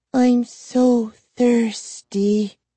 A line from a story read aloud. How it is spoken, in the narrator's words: she sighed